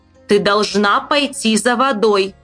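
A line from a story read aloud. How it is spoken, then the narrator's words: Stern mother. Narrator (Russian): строго сказала мать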